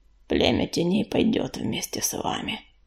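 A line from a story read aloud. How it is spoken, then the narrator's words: Grumbling. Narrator (Russian): проворчал он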